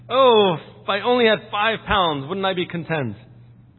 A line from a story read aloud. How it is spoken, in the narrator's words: his cook exclaim